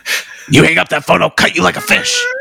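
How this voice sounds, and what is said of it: Ghostface's menacing phone voice. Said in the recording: “Ghostface calling ... you can do the voice”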